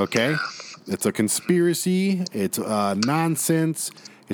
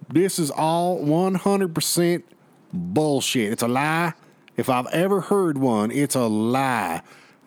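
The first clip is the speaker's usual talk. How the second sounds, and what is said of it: Put-on Southern American accent. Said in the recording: “I'm going to do a southern accent too”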